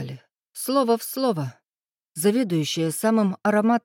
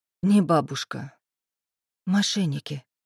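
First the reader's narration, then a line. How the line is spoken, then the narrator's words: Whispering under breath. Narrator (Russian): шептала я себе под нос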